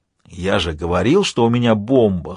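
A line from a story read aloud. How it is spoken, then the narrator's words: Hoarse whisper. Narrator (Russian): хрипло прошептал Альфа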